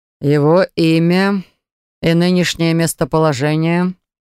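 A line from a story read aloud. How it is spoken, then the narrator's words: Dry question. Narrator (Russian): Сухо спросил герцог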